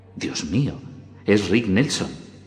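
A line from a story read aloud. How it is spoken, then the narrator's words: Whisper. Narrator (Spanish): susurró Clark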